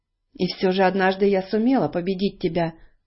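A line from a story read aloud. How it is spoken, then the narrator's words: Calm objection. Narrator (Russian): спокойно возразила Элли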